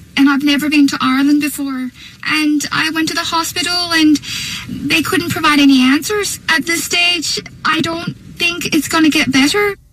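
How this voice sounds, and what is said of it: Irish-sounding accent. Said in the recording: “an Australian woman claims that she woke up from tonsil surgery sporting an Irish accent ... foreign accent syndrome”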